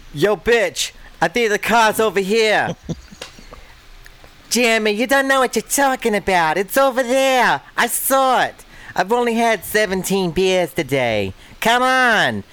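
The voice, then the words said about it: Put-on Boston accent, arguing. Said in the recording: “give us real quick a rendition of two Bostonians arguing back and forth”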